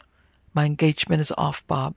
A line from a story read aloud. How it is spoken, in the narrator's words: he said, trying to speak calmly, but with a tremor in his voice he could not conceal